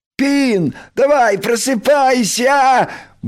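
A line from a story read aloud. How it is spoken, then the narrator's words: Cheerful shout. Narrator (Russian): бодро прокричал Крош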